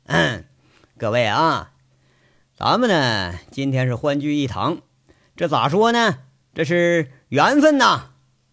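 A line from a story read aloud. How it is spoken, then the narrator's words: Smiling, leisurely opening. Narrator (Chinese): 杨伟这才笑着开口了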